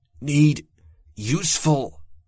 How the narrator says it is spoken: grunted and gasped the words, hating how small my voice sounded

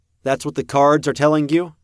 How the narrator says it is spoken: called out the question

